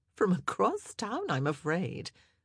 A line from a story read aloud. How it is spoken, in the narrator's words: she laughed